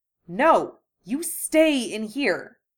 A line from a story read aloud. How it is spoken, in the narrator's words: hissed